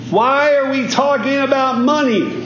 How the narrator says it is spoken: she yelled out from the back of the church

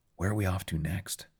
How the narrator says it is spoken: whisper in our ear

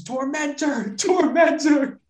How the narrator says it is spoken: screams

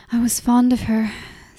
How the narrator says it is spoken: said Enna, sighing

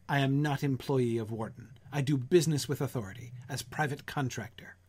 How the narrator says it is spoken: I answered almost sharply

